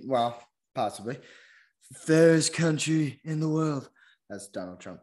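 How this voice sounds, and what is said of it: Imitates another person's voice. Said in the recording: “doing a Trump impression”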